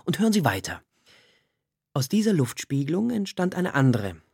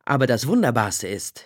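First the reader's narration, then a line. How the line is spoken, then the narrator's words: Laughing. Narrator (German): lachte Corvin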